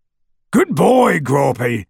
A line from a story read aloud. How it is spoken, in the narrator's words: bellowed through the hole in the window